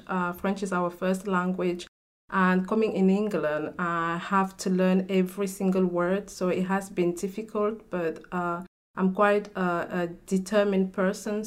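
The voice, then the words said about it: Cameroonian French-speaker's English accent. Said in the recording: “I can hear from your accent, you're like me ... I come from Cameroon in Africa. So in Cameroon, we speak French.”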